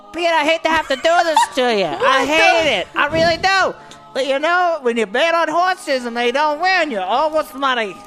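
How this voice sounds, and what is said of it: Character voice with an accent. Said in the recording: “where did his accent come from?”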